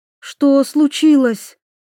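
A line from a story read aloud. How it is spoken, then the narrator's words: Frightened. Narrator (Russian): испуганно проговорила Аннабель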